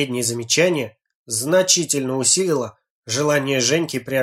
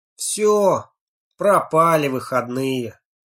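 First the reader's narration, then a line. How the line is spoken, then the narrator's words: Gloomy, over the phone. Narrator (Russian): мрачно заявил Леха в телефонном разговоре с Женькой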